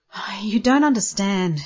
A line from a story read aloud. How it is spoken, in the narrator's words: he moaned